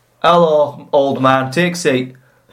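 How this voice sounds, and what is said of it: Put-on Yorkshire accent. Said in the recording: “He's a Yorkshireman. He talks like that.”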